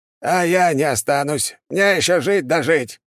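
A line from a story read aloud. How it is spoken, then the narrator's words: Old man shouting. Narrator (Russian): прокричал старик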